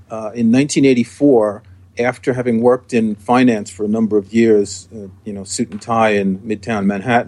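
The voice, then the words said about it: New York accent. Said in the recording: “I was born and raised in New York, as you can probably tell from my accent.”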